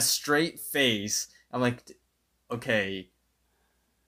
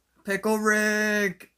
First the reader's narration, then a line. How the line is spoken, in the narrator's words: he would scream out